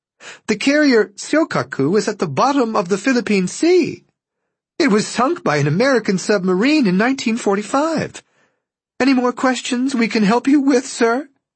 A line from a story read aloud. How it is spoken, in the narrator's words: she said in a giggling voice